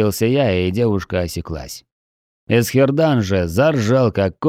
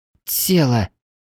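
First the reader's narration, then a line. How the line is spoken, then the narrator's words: Confused blurt. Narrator (Russian): растерянно брякнула НПС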